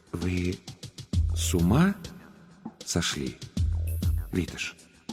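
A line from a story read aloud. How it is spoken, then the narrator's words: Slow, deliberate question. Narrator (Russian): Разельчикус медленно с расстановкой спросил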